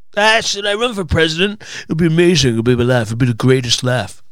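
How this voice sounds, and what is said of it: Poor imitation of another person's voice. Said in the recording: “Was that a Donald Trump impression? ... Yeah, it was terrible, wasn't it? It was absolutely awful.”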